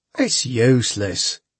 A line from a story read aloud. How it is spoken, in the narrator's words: he chuckled